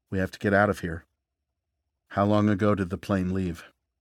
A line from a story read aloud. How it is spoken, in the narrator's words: Reese said in a measured tone